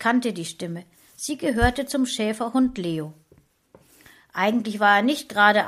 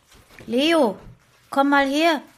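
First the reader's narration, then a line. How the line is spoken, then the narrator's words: Calling out. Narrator (German): rief ich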